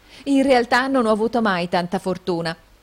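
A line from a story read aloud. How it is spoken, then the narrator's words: Coquettish exclamation. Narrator (Italian): esclamò con civetteria la signorina Price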